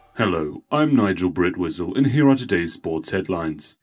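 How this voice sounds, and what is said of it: British accent, flat monotone delivery. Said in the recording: “a British man in a monotone voice”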